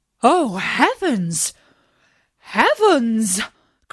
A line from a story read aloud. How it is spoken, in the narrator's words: cried they